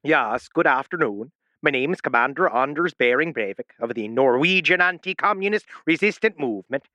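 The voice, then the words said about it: Bad put-on Norwegian accent, slipping Irish. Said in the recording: “Irish. You're going Irish. ... You have the worst Norwegian accent in the world. ... every time I try to do the subtle Scandinavian, it goes Irish, Canadian, or back to German ... You're doing Swedish chef.”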